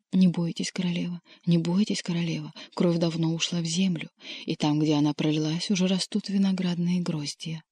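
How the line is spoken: Unknown voices whispering. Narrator (Russian): чьи-то голоса, а чьи она не разобрала, шепнули в оба уха

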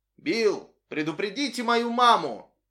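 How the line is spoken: Shouted over shoulder. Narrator (Russian): крикнул Сэнди через плечо

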